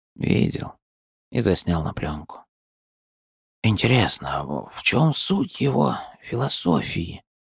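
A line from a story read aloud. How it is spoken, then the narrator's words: Muttered under breath. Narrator (Russian): пробормотал себе под нос Даринг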